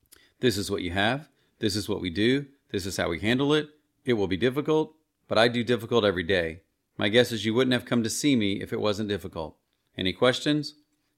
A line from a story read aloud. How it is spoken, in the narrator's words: flatly explained